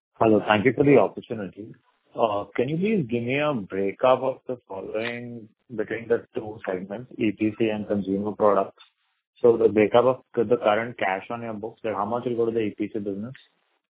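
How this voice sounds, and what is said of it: Muffled, unclear voice. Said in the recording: “Not very clear ... your voice is sounding muffled”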